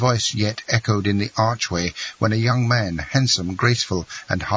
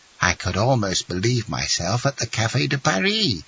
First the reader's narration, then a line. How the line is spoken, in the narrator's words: murmured Dangla